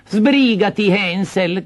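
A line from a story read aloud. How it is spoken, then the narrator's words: Stepmother shouting. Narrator (Italian): gridò la matrigna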